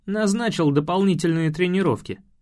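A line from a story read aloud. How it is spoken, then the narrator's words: Barked. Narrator (Russian): гаркнул я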